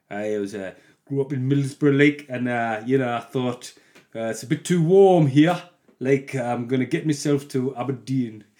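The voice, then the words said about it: Poor put-on regional British accent. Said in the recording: “That was bad. That was a bad accent. There was a little bit in the middle where I had it.”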